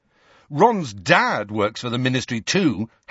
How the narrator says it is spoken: Harry said furiously

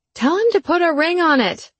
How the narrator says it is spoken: she cried

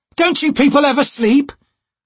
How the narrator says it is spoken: Crocus shouted as he ran

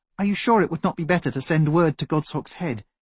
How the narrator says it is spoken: she asked meekly

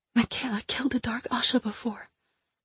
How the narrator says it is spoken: I said softly and urgently, not wanting the others to hear

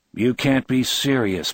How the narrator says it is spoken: Bill had said in a flat, disbelieving voice

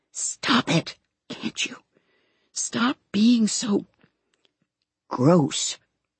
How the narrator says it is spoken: he whispered

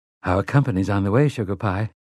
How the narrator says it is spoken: Susanna said

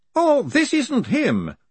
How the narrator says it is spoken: said the Professor cheerfully

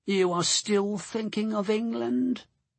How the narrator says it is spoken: Andrew said gloomily

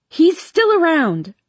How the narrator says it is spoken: I shout

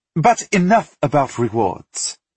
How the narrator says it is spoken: Galina snapped

